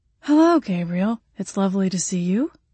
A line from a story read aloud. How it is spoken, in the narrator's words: he responded in a feminine voice that frankly sounded nothing like me